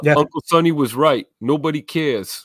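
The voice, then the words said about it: Italian-American mobster accent, Sonny impression. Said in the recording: “Love the accent too. Emilio would appreciate that. You know, the old paisano over there. Hey, forget about it.”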